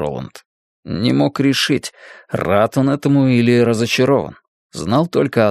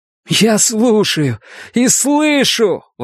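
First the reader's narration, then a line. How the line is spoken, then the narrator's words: Exclaimed. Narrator (Russian): воскликнул Эдди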